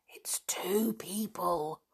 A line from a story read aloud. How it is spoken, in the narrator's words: whispered Anne